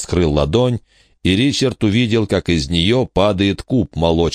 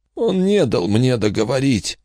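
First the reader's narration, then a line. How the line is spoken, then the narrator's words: Old man's barely audible strain. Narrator (Russian): еле слышно выдавил старик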